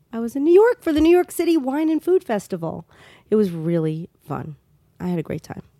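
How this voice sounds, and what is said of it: Voice affected by a cold. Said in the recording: “I have a little bit of a cold ... you came back with a cold”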